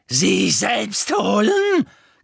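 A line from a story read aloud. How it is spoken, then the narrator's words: Shrieking with mad cackling laughter. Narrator (German): kreischte Bellatrix und ließ ein gackendes, wahnsinniges Lachen hören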